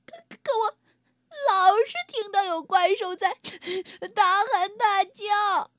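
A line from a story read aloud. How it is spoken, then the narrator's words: Sobbing. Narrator (Chinese): 蓝色的小家伙抽泣着说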